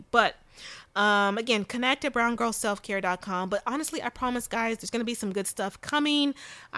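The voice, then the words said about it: Sleepy voice, talking fast. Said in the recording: “I think I'm sleepy ... maybe that's why I'm talking so fast ... I'm a little sleepy”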